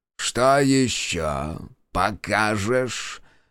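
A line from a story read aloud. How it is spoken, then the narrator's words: Lazy monster's question. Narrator (Russian): лениво поинтересовался монстр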